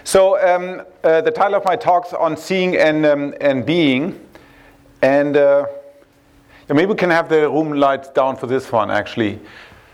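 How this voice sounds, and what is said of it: Heavily flavored accent. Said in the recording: “I do sound like our governor. ... my heavily flavored accent.”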